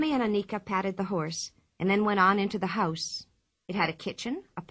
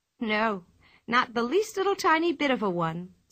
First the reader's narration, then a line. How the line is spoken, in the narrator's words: said Pippi happily